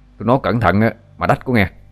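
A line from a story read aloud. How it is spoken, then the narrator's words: Shout. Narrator (Vietnamese): Nó quát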